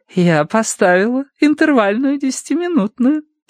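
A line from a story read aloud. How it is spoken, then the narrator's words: Cooing. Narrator (Russian): проворковал Уордер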